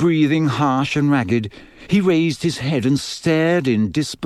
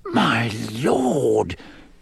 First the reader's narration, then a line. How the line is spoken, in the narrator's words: he whispered